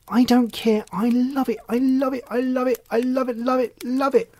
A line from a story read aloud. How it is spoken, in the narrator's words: said Rosie very excitedly